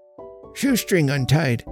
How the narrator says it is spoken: replied old Jonas in a half-inarticulate grunt

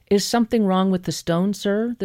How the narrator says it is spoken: the saleslady asked

